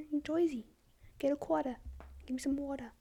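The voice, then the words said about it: Put-on New Jersey accent. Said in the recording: “That's like a New Jersey accent.”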